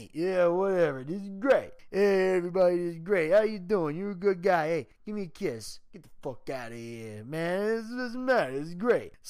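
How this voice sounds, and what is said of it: Sylvester Stallone impression. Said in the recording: “they do a whole Sylvester Stallone impression”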